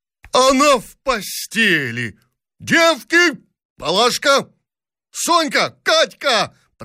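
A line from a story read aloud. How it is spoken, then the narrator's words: Princess shrieking. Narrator (Russian): Пронзительно закричала княгиня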